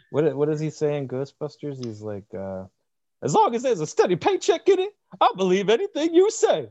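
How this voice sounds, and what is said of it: Usual voice. Nothing is said of it.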